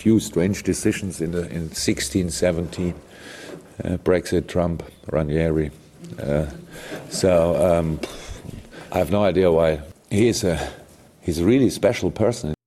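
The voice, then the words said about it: English with a German accent. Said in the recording (Italian): “Un po' con questo accento tedesco.”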